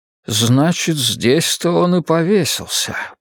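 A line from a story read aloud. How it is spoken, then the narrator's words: Muttered. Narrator (Russian): пробормотал Кэлвин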